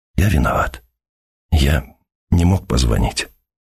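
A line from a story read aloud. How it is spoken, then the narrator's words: Barely audible. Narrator (Russian): он договорил еле слышно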